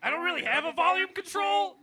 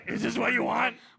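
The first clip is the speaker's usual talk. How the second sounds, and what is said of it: Low raspy gravelly voice. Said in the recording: “Is this quieter? ... It's just raspier, honestly. ... You sound like Batman. ... It's kind of like a Marlboro thing, right?”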